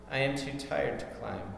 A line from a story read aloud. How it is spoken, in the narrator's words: said the boy